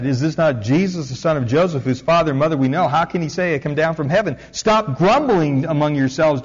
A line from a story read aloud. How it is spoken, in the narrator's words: Jesus answered